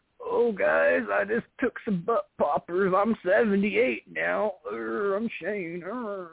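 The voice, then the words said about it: Impression of an old man. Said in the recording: “My old man Shane impression. That's my old man Shane impression.”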